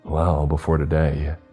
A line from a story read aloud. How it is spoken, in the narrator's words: he said